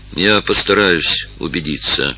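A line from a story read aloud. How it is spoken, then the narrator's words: Gloomy. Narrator (Russian): сказал мрачно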